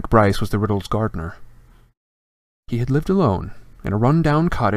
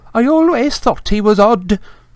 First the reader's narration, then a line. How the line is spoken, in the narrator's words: told the eagerly listening villagers after her fourth sherry